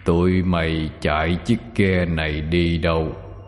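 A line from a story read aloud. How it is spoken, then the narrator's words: Deep booming voice. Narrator (Vietnamese): phát ra tiếng nói ồm ồm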